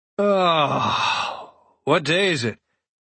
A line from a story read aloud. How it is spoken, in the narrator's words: He asks, all the slurring gone from his voice